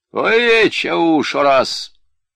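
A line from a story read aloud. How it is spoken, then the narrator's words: Shout. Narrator (Russian): крикнул Инанчхан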